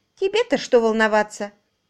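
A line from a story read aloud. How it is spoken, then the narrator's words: Snapping irritably. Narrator (Russian): огрызнулась Флори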